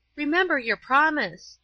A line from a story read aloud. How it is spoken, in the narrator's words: cried Paula